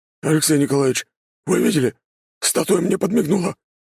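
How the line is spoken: Suddenly tense voice. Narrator (Russian): внезапно напряженным голосом проговорил Григорий

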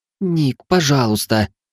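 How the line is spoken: Pleading. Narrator (Russian): взмолился Чихон

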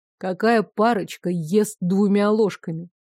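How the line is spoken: Quiet but emphatic. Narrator (Russian): С нажимом, но тихим голосом

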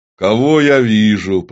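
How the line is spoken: Booming, trumpet-loud. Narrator (Russian): прогудел он с такой силой, словно проглотил ерехонскую трубу

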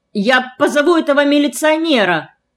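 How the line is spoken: Indignant shout. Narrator (Russian): возмущенно выкрикнул

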